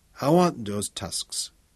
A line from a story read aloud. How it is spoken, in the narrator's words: Heng murmured, the passion of the collector barely concealed